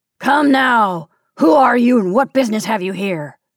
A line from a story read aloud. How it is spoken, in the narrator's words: the man said, more gruffly than ever